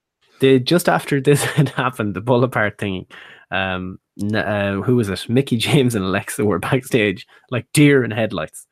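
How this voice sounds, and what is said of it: Irish accent from Mayo. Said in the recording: “Maybe it's my accent. ... Is that Galway accent? ... From Mayo”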